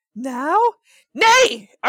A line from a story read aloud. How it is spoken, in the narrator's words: Arden exclaimed